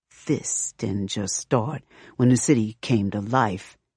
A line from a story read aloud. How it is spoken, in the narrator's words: she growls